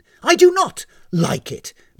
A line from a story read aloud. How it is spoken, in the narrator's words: barked Uehara, whose denial was perhaps a little too forceful